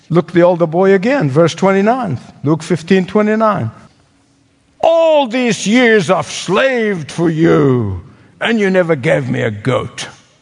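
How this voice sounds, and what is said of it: Speaks with a noticeable accent. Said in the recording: “my accent”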